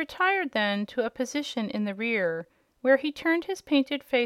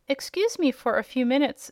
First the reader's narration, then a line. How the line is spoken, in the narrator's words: said the Scarecrow